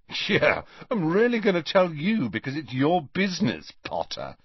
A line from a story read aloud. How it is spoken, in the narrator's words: sneered Malfoy